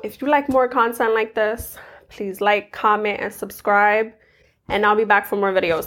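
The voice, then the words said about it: Voice sounds unwell. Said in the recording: “the reason why my voice sounds like this is because I was sick for the past few days”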